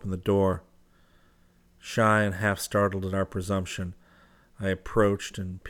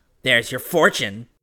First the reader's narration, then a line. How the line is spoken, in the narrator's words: she said with a sneer